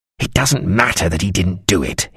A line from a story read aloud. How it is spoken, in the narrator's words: he snarled